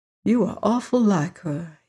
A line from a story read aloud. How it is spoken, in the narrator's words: he whispered